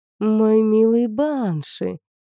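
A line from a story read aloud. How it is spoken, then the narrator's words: Delighted cooing. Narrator (Russian): проворковала Оракул, явно обрадовавшись старому знакомому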